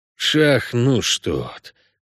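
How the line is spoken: Hissing. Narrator (Russian): прошипел Геральт

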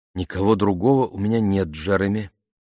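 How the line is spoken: Plain. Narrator (Russian): ответила она

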